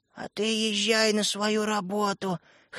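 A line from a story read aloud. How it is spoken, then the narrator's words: Hoarse, sick voice. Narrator (Russian): хрипел простуженным горлом Светлик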